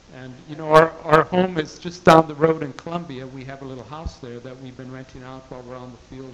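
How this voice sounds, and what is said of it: South Carolina accent. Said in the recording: “So we're South Carolinians from way back. I'm sure our accent gave us away”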